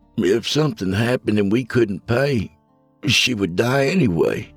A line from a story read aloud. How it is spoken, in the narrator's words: replied, holding back the overwhelming urge to sob that caused my voice to shake